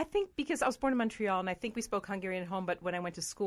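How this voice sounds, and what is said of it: Usual voice. Nothing is said of it.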